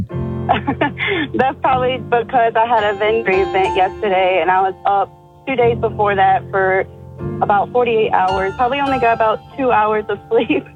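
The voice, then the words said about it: Tired-sounding voice. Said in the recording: “do you sound so tired?”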